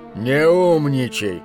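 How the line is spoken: Good-natured grumble. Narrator (Russian): беззлобно проворчал он

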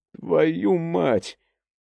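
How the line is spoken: Exclamation. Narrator (Russian): воскликнул

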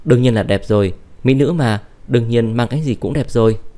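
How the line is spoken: Laughing. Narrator (Vietnamese): Uông Thủy Mạt bật cười

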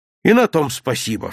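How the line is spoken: Cheerful. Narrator (Russian): все так же весело сказал Серпилин

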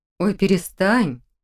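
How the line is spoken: Uncertain demand, wincing. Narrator (Russian): Неуверенно потребовала Хильда, поморщившись

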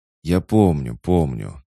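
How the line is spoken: Weary dismissal. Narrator (Russian): устало отмахнулся Максим

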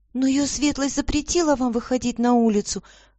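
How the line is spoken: Timid servant girl. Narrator (Russian): робко доложила служанка

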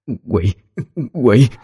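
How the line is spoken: Terrified stammering cry. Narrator (Vietnamese): Bà lắp bắp kêu

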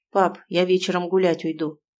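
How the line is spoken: Forced cold firmness. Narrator (Russian): сообщает Лева, стараясь говорить холодно и твердо

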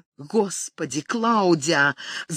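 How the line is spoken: Muttering, suppressing rage. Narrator (Russian): забормотал, изо всех сил стараясь сдержать душившее его бешенство, чтобы не отпугнуть девушку

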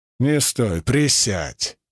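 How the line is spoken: Near growl. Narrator (Russian): чуть ли не прорычал я

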